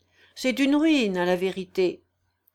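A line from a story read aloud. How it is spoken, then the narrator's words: Stifled sigh. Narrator (French): dit son compagnon en étouffant un soupir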